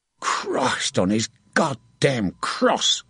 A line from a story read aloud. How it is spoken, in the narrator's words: Evelgold grumbled